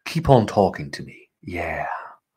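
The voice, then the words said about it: Soothing put-on British accent. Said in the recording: “In full British accent. ... Listen to my soothing voice. The Queen's English.”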